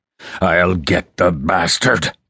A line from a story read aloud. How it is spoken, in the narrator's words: Corshire roared